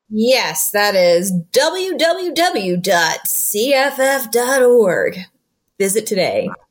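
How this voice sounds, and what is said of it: Exaggerated radio announcer voice. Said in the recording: “that's my radio voice. It's terrible.”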